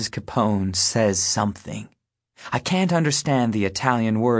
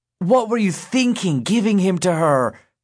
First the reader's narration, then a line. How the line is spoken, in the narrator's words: Jimmy hollers at Teresa